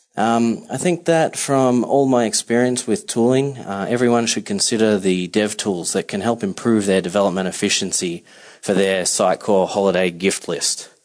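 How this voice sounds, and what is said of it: Australian accent. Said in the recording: “I am originally from Melbourne, Australia... this isn't your typical Manhattan accent.”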